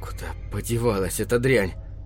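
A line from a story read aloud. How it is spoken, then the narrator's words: Fierce mutter. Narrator (Russian): Пробормотал он свирепо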